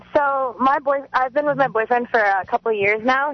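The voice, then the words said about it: Young girlish voice. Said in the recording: “That's a little girl voice.”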